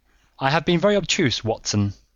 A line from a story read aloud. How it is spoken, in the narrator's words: said he